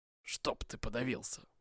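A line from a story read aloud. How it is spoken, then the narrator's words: Breathless tired grumble. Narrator (Russian): проворчал Вайдаков, задыхаясь от ветра и усталости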